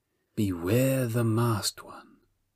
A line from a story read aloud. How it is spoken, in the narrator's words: she purred